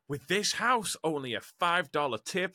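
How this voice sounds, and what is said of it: Put-on American accent. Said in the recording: “That's my American accent. ... It was very good. ... It was beautiful.”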